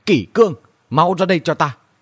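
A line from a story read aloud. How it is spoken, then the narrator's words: Loud shouting call. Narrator (Vietnamese): Dương Thu Trì lớn tiếng quát gọi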